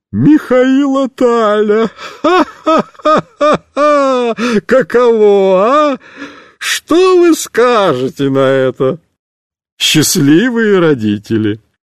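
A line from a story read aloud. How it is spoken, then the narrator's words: Laughing. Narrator (Russian): будет смеяться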